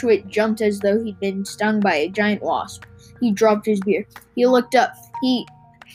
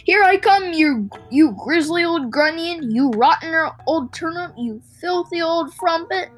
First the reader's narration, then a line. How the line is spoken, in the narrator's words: Twit, she suddenly called out at the top of her voice